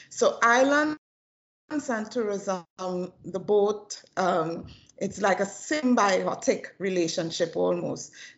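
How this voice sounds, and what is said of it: Trinidadian accent. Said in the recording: “we both have a Trinidadian accent”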